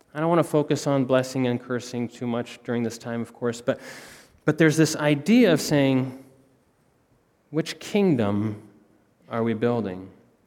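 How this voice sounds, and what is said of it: American accent. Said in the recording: “I sound like an American”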